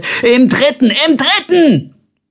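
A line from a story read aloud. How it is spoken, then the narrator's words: Roaring while chasing. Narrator (German): Colbert versuchte ihn einzuholen und brüllte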